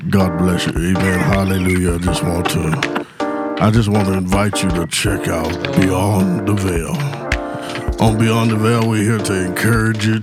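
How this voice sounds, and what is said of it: Preacher-style bishop voice. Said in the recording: “my bishop voice... Bishop voice only”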